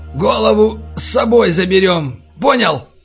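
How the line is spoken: Hoarse rasp. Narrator (Russian): прохрипел Натаниэль

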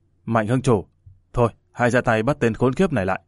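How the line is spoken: Cold flat voice. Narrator (Vietnamese): Người ốm lạnh lùng nói

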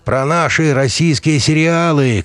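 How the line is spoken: Shouting. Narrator (Russian): крикнул я

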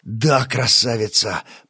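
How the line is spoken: Mumbling. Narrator (Russian): пробормотал Стас

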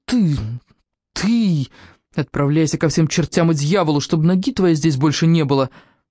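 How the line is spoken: Angry hiss. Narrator (Russian): злобно прошипела

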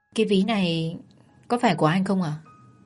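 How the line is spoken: Softly. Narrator (Vietnamese): Thao khẽ nói

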